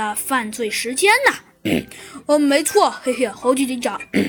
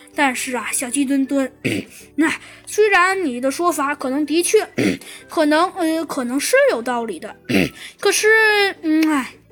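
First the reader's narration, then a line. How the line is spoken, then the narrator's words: Sighing, hesitant. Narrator (Chinese): 猴子警长叹了口气，说道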